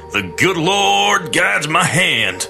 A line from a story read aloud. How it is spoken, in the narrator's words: the farmer shouted